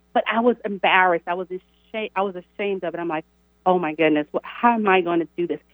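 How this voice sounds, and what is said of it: Southern American drawl. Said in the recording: “I'm from the South ... I have a Southern drawl. It was worse”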